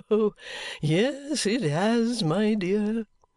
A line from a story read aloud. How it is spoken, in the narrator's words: he said laughingly